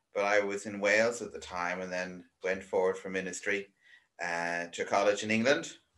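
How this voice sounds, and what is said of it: Irish accent. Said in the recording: “I'm Irish. You probably guessed by the accent by this stage.”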